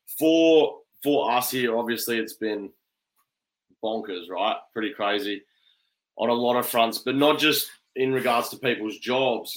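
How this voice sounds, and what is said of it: Strong Australian accent. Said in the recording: “I'm in Australia, so ... accent might be a bit strong”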